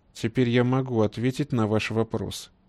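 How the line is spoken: Quiet, hate-filled. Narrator (Russian): тихо проговорил Сливин, чувствуя, как ненависть к недавнему гостю наполняет все его существо

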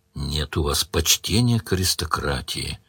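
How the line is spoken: Sad. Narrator (Russian): грустно сказал Сварог

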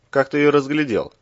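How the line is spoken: Puzzled grunt. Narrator (Russian): озадаченно хмыкнул Иван

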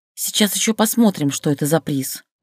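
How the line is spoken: Grumbled. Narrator (Russian): проворчала Люся

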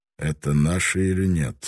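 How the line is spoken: Calm question. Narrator (Russian): спокойно спросил Таранага

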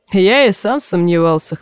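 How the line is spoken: Wry grunt. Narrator (Russian): хмыкнул Манс

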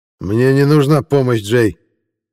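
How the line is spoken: Growled after brief hesitation. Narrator (Russian): Мгновенно поколебавшись, прорычал Масуд

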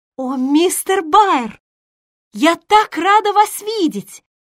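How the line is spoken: Exclaimed. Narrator (Russian): воскликнула Джо

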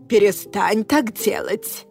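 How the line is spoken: Growl. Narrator (Russian): рыкнула на меня Аврора

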